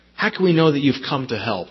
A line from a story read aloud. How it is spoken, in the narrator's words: they asked